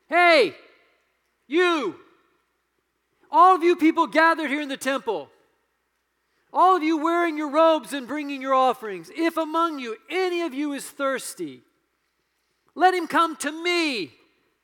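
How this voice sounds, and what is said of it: Commanding, loud shout. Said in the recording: “in a commanding voice, he shouts”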